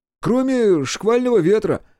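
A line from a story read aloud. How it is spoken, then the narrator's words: Almost shouting. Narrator (Russian): Почти закричал Накакура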